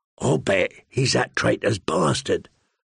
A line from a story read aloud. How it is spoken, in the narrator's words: Lummy said one night in a harsh voice, so Gendry would not hear